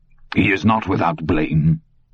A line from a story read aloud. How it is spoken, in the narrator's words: Bowden said harshly